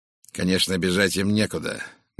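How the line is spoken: Grim. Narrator (Russian): мрачно сказал бандит

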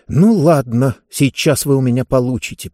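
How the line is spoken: Through gritted teeth. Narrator (Russian): процедила Диба

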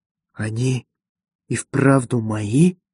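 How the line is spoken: Whisper. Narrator (Russian): прошептал он

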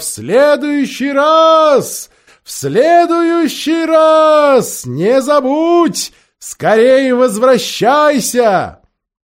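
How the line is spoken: Shouting farewell. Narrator (Russian): королева закричала

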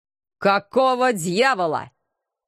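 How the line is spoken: Menacing question. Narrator (Russian): В том же тоне грозно поинтересовался Алекс

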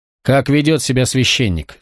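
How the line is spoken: Plain. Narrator (Russian): спросил перихиль

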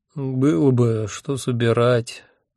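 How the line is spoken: Sleepy objection. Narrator (Russian): сонно возразил я

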